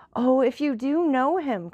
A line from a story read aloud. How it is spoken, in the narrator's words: cried Julie